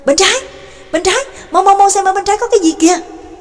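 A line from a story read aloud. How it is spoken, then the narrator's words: Shouted from behind. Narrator (Vietnamese): Trương Lập ở phía sau cũng kêu lên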